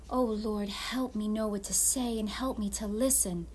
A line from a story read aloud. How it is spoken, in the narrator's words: whispered Pirate Lydia